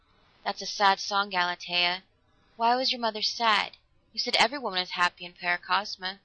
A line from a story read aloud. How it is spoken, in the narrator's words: He said huskily